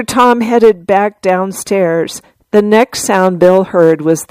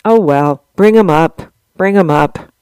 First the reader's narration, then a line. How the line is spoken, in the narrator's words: With a sigh, he said to Tom